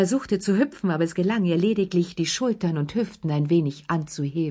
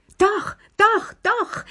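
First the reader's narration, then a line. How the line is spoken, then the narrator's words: Excited shouting. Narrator (German): schrie Lilli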